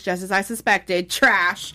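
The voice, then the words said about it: Imitates another person's voice. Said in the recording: “In my Jasmine Masters voice”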